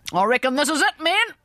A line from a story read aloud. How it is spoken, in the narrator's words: cried the general